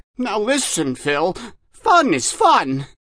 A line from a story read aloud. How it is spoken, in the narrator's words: the Dutchman cries angrily